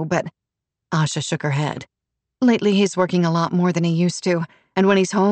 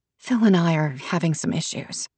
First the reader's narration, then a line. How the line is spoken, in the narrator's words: Asha said softly